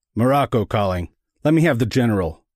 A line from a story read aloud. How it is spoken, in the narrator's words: he snapped